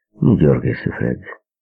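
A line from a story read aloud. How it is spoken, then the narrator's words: Calm advice. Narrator (Russian): Терри спокойно посоветовал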